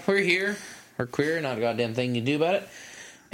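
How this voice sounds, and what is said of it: Exaggerated gay redneck accent. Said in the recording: “You had a great gay redneck accent there for a moment.”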